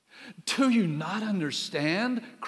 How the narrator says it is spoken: cried Recorder

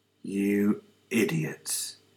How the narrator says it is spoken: Stanley whispered to himself

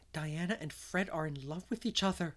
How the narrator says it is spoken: she gasped

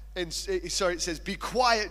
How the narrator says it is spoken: Jesus said sternly

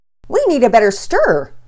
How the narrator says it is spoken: shouted

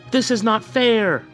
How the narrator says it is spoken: the young girl cried

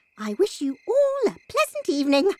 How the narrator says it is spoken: chirped Bruno

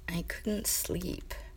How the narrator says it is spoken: Mamoru mumbled into the blanket

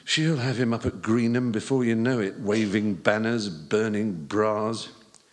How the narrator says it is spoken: muttered

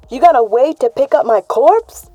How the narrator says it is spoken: Cammy shouted back

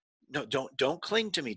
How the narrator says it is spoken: Jesus said

